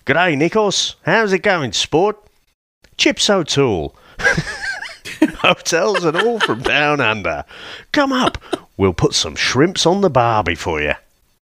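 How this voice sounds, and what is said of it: Terrible put-on Australian accent. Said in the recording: “a terrible Aussie accent ... Michael Caine's great lines”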